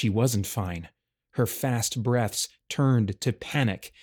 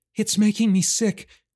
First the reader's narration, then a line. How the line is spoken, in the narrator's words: she said between gasps